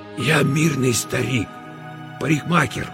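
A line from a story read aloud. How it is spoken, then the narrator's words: Hoarse strained whisper. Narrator (Russian): хриплым шепотом выдавил Мосес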